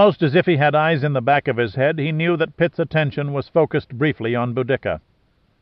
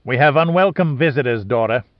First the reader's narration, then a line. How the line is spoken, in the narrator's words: said